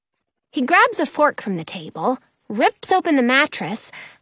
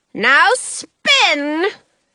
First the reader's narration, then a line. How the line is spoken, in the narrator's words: he yells